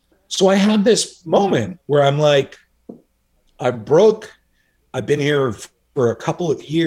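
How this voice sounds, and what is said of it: Usual voice. Nothing is said of it.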